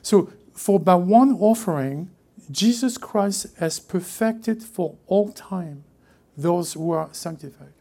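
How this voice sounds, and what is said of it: French-accented English. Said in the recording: “It's probably my French accent, probably.”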